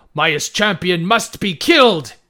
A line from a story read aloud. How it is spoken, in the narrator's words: Brisa was yelling